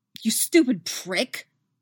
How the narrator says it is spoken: snarls

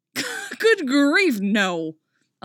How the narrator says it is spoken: Oliver exclaims, but Artemis can tell he's trying not to chuckle

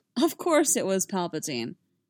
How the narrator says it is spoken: Anakin scoffed

